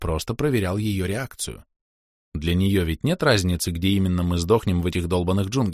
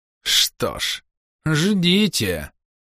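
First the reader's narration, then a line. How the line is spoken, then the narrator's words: Mocking sing-song, jungle. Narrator (Russian): насмешливо пропели джунгли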